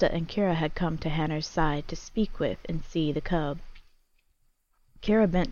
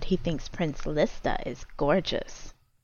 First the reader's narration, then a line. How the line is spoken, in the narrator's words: She laughed and added